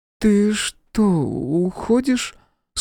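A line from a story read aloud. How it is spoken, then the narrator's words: Sleepy question. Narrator (Russian): сонно спросила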